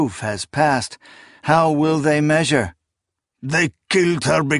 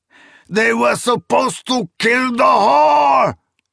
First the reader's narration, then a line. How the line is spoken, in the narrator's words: Nayor screamed